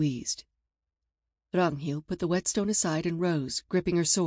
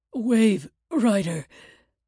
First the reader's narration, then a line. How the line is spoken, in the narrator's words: Einar gasped